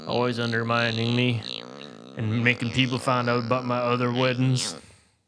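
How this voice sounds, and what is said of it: Put-on accent. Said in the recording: “I don't know why I'm talking with an accent when I talk about my other weddings”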